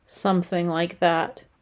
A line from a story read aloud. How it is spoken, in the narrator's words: replied dryly